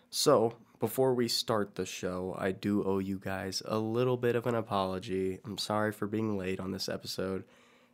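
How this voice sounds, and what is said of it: Sick-sounding voice. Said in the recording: “as I'm sure you can hear in my voice, ... I was extremely sick ... But I'm feeling a little better now”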